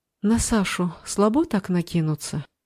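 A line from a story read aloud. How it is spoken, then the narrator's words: Calm question. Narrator (Russian): спокойно спросила Егора Алиса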